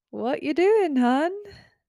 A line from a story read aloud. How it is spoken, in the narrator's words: She giggled a little